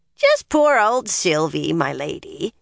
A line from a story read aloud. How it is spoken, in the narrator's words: the old woman cackled